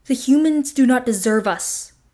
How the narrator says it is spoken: roar

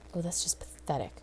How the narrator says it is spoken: Rodney muttered

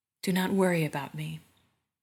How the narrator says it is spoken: says, in an uneven voice

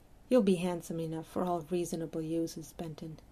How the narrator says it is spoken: murmured

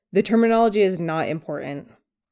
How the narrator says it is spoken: said impatiently

